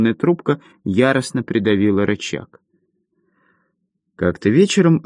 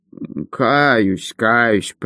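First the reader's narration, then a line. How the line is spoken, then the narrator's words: Muttered. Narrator (Russian): пробормотал он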